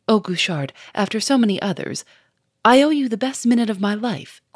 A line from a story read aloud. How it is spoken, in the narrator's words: cried Lupin